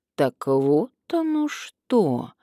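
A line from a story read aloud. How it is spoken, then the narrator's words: Drawl aloud. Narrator (Russian): протянул Карпов вслух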